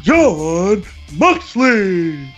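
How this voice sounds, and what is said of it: Howard Finkel ring announcer impression. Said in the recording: “great Finkel impression. Great Finkel impression”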